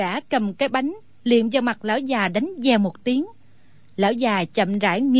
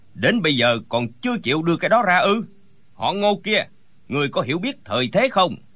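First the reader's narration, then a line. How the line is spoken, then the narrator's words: Loud barked question. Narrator (Vietnamese): Gã lớn tiếng quát hỏi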